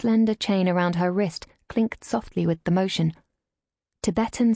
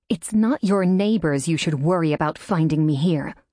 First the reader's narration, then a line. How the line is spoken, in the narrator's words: spat